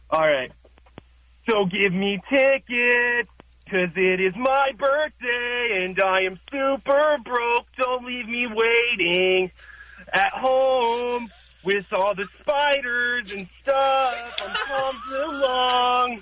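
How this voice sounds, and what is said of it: Imitates another person's voice. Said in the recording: “do a little bit of impersonation ... We got the Tom DeLong part.”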